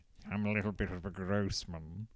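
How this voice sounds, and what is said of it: Gross man character voice. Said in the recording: “That's my average being gross impression.”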